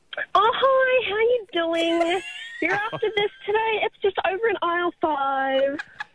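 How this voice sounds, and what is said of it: Overly polite customer service voice. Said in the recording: “my customer service voice ... the most annoying voice ... your voice that you use when you are annoyed by someone in front of you and you have to be polite”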